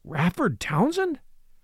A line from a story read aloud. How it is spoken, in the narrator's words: exclaimed Hartley, with a grim tightening of his jaw